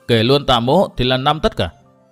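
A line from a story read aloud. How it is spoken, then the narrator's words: Loud laughing reply. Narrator (Vietnamese): Ngũ Ương lớn tiếng cười đáp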